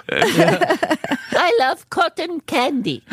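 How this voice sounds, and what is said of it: Carol Kane impression. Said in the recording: “best Carol Kane impression I've ever heard. You got it down.”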